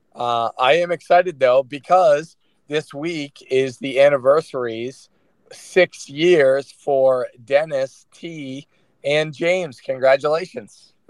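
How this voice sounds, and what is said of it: Hoarse, strained voice. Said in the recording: “It was honestly as bad as how I sound right now... I lost my voice.”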